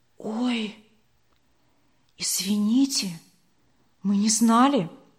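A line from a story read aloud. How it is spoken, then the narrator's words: Whispered reply. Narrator (Russian): шепотом ответила Вера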